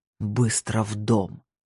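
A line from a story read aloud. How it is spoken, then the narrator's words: Low hoarse growl. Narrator (Russian): Его голос показался не криком, а низким хриплым рычанием, от которого похолодело внутри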